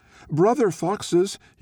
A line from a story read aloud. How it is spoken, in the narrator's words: he called out